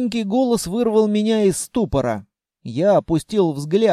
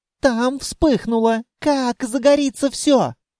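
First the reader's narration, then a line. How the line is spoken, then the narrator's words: Sobbing. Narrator (Russian): Она всхлипнула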